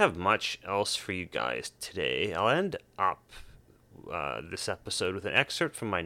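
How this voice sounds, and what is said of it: Usual voice. Nothing is said of it.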